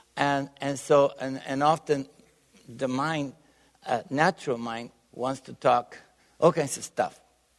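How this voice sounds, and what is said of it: Bulgarian-accented English. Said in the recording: “my accent, I'm definitely not from Texas ... originally, I was born in Bulgaria”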